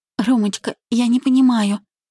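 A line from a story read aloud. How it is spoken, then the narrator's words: Timid babbling. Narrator (Russian): пролепетала она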